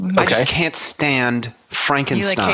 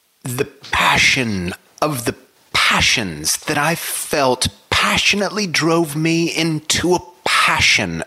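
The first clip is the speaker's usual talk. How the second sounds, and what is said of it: Mock dramatic literary character voice. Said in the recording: “my real quick Frankenstein impression”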